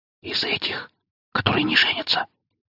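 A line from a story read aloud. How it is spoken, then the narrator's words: Whisper in ear. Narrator (Russian): шепотом произнесла мне на ухо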